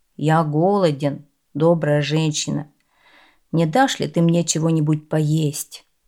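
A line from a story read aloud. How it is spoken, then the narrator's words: Plain, beggar. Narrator (Russian): сказал нищий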